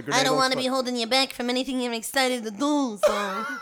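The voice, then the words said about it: Put-on Italian accent. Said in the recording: “That voice is, Jesus... A consistent Italian accent and a knowable voice”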